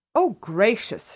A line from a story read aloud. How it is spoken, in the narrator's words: she exclaimed